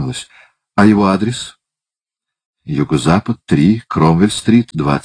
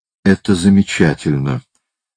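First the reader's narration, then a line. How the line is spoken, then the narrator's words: Calm speech. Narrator (Russian): спокойно сказала она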